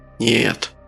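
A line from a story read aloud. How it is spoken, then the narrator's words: Hoarse, doubtful. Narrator (Russian): Голос Френа был хриплым, в нем явно сквозила нотка сомнения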